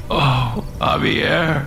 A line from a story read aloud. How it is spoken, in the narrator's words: Alex whimpered